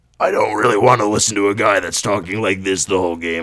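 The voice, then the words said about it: Raspy, smoker-like imitated voice. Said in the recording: “Doc Rivers' voice ... a fucking 40-year-old smoker ... That's pretty good, actually ... my Doc Rivers impression”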